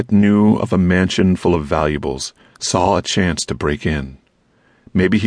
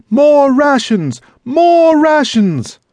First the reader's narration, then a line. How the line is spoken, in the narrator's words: the mob bellowed, almost as one